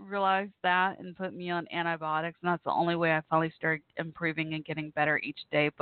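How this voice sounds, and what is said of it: Slightly hoarse voice. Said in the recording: “my voice is still a little hoarse.”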